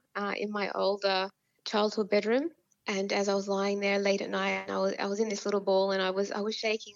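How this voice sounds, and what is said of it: Choked-up, tightening voice. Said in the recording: “my voice is clamming up on me now”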